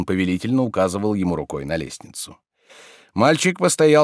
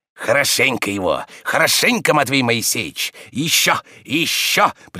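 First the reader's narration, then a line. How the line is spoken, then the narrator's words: Gloating, spiteful urging. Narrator (Russian): приговаривал он, злобно радуясь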